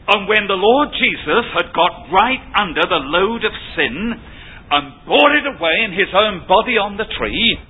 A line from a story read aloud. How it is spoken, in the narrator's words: he cried out in mighty triumph